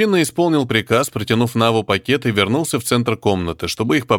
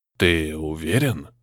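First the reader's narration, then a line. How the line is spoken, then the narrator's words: Very quiet question. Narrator (Russian): очень тихо спросил Барага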